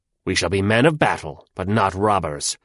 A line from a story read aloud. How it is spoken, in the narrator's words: answered Wong the Tiger very harshly